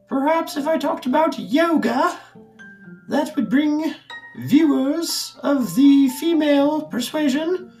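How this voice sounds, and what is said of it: Put-on accent. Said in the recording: “I don't know why I'm talking with this accent. I do that sometimes.”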